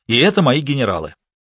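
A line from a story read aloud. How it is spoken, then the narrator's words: Angry barking. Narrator (Russian): злобно пролаял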